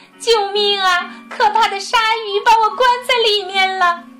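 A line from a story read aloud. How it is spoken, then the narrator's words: Loud crying shout. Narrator (Chinese): 海豚姑娘迪娜被卡在里面了，她大声哭喊着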